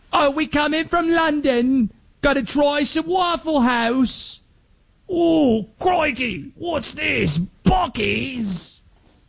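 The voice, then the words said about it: Bad put-on British accent. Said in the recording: “My accents are awful, sorry.”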